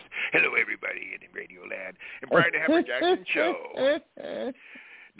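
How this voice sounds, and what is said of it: Put-on radio announcer voice. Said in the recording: “I got to get my radio voice on here... I'll try to get my radio voice... You like the voice?”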